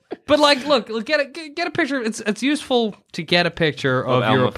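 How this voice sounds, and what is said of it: Usual voice. Nothing is said of it.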